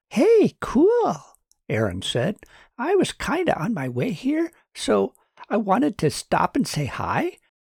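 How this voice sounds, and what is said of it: High-pitched character voice. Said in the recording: “high voice”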